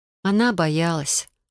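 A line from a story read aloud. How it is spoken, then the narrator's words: Gentle reply. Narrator (Russian): ласково отозвалась я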